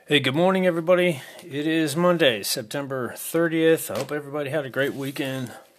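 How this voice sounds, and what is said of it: Groggy just-woken-up voice. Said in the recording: “Pardon my voice. I'm just waking up. ... As you can tell, I'm just waking up. My brain's catching up with me here with my voice.”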